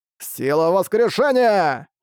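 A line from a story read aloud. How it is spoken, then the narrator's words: Shouted. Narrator (Russian): Карат закричал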